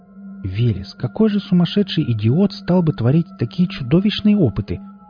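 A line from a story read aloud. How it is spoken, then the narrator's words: Exclamation. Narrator (Russian): воскликнула тогда Оля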